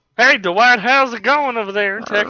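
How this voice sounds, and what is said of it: Put-on redneck voice. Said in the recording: “do the redneck voice.”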